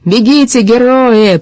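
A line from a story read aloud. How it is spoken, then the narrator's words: Shouted after them. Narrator (Russian): прокричал он им вслед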